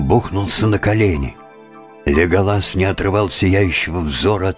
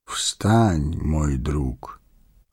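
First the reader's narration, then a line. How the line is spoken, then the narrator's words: Gentle, affectionate. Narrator (Russian): ласково сказал он гному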